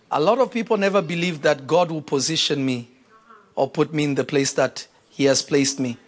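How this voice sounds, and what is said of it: African accent. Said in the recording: “African boy from Africa with accent”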